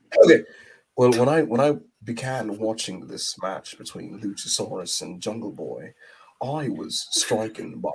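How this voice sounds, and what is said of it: Put-on British accent. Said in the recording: “doing an English accent quite delightful and easy and striking ... do your review of Luchasaurus versus Jack Perry in the British accent”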